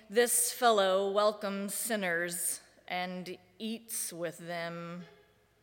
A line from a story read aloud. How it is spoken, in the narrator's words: the Pharisees and the scribes were grumbling, saying